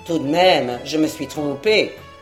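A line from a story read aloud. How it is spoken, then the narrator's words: Old man grumbling irritably. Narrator (French): grommela le bonhomme avec mauvaise humeur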